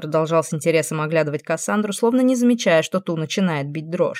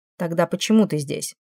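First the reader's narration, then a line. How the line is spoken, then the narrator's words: Sad ironic smirk, demon. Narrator (Russian): Демон усмехнулся, немного грустно, немного иронично, словно сам над собой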